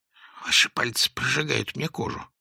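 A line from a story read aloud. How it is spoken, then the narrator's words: Whisper. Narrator (Russian): прошептал Клочков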